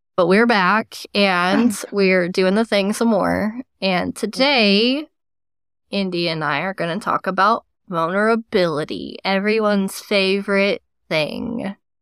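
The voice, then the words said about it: Sick-sounding voice, cracking. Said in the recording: “my voice cracked ... I'm sick, so that's why I sound weird”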